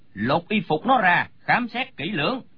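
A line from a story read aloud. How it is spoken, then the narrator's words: Frowning shout. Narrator (Vietnamese): Lão chau mày quát lên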